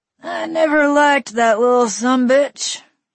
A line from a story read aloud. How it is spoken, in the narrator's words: he slurred